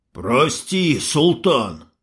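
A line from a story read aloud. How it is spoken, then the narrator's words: Wheezing, spitting blood. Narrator (Russian): хрипит, выплевывая кровь индеец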